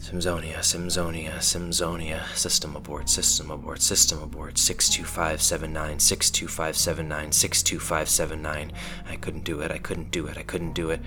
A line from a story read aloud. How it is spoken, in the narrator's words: She mumbled to herself